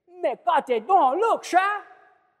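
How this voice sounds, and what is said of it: Put-on Cajun accent. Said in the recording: “That's Cajun accent for you”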